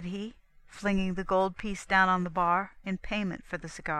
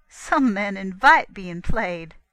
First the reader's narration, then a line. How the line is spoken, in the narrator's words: a nervous little laugh and the words